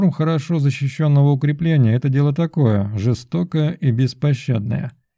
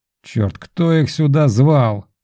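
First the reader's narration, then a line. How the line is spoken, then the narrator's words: Hissing through teeth. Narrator (Russian): шиплю я сквозь зубы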